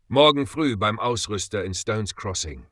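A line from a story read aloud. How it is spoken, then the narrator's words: Plain. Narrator (German): sagte Ezekiel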